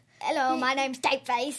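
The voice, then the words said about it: Bad imitation of Tapeface's accent. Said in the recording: “That's a bad accent.”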